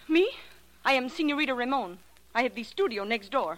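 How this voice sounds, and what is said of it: Fake Spanish accent. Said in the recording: “That accent of yours is slightly spurious”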